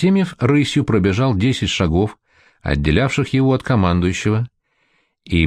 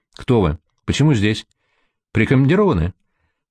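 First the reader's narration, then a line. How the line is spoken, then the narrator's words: Stern quick commander's question. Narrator (Russian): строго и быстро спросил командующий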